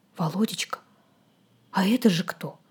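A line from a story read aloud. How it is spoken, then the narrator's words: Whispered question. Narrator (Russian): спросила шепотом мать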